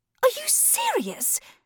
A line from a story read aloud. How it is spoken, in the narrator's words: Saffron hissed